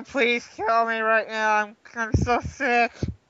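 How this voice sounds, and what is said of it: Miserable, sick-sounding voice impression. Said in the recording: “that's exactly how I talked ... did a perfect impression”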